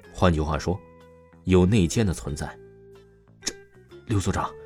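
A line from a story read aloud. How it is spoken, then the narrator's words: Chilling cold voice. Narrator (Chinese): 刘海波声音寒意四起的说道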